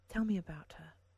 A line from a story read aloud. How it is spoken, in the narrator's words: Nomi said gently